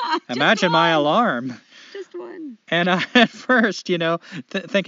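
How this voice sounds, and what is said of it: Usual voice. Nothing is said of it.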